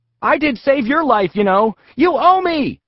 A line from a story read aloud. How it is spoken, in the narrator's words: response was to scream